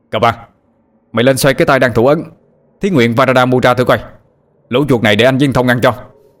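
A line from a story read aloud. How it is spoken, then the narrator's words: Almost shouting. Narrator (Vietnamese): như quát lên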